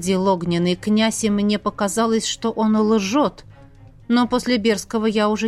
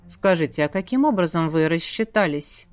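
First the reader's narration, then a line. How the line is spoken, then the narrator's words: Thoughtful question. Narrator (Russian): Задумчиво спросил Врановский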